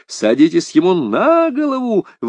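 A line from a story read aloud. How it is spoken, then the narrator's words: Yelling while moving. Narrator (Russian): вопил он на ходу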